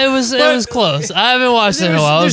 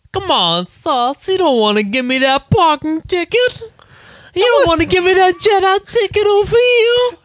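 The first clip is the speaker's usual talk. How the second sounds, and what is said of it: Feminine southern cartoon character voice. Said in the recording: “real feminine and southern ... he talked kind of like a gay Dusty Rhodes ... I want to attempt the accent ... That wasn't bad. That was pretty good. ... There's more of a lisp”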